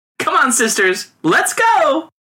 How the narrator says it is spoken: cried one among them

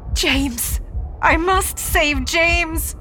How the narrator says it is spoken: wails

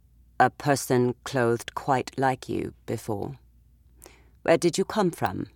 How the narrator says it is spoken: the man said calmly

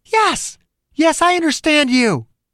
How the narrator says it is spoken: She was yelling

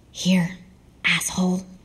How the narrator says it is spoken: whispered

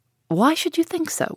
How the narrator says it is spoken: replied he, with a sigh

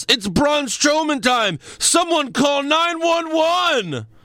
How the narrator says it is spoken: according to Michael Cole, he yells

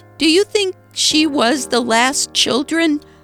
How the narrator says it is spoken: he blurted

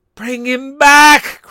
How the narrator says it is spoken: cried the old woman

